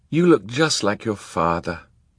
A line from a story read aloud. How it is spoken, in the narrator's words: Kit sighed